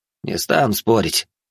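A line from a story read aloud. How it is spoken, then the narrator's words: Grumbled. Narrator (Russian): буркнул Баженов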